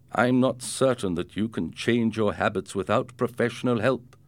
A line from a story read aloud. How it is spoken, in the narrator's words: Ricardo's father said